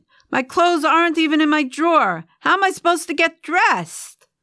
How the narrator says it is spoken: shouted

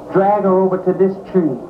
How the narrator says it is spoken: Someone hollered

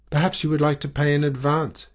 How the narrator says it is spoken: he suggested eagerly

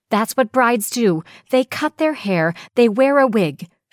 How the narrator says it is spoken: wailed

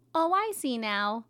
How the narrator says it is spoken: happily munched

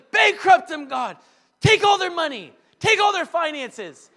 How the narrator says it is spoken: yelling this on the street

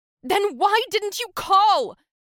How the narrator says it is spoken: She yelled, her voice cracking

